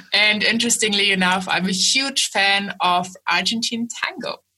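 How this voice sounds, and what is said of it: Speaks with a foreign accent. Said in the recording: “I am based in Germany. I don't just have the accent.”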